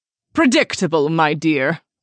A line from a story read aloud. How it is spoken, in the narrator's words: Evelyn taunted